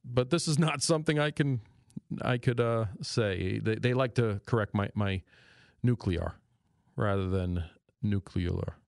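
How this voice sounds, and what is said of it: New York accent. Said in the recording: “my New York accent does come out every now and then ... So it's my New York accent.”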